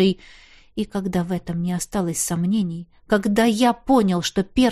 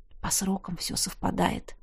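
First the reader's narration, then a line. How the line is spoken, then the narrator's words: Whisper. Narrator (Russian): шепнул Тизар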